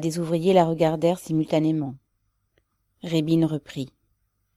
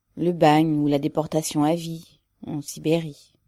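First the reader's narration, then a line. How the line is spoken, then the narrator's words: Low-voiced woman. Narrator (French): répondit-elle à voix basse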